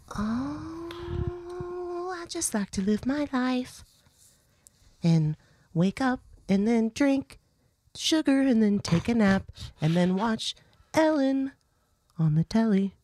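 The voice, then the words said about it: Breathy, soft, calm lady voice. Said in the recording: “You like breathing in to microphones and making people's spines tingle? ... Stop talking in this fucking voice. ... I can't stand this voice. ... I'm just a calm, relaxed lady.”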